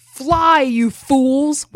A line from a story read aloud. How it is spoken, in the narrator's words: he yells at them